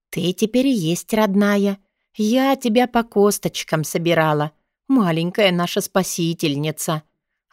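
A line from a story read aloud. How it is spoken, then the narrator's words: Tender, affectionate. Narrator (Russian): ласково проговорила целительница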